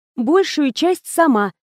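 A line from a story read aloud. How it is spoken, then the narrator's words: Joyful declaration. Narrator (Russian): радостно заявляет Ребекка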